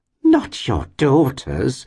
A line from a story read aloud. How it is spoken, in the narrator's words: exclaimed the lady